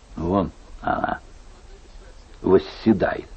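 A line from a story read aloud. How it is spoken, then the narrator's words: Stammering mutter. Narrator (Russian): заикаясь, бормотал Карл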